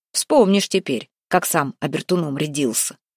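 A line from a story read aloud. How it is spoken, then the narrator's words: Snorting. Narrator (Russian): хмыкнул Куприян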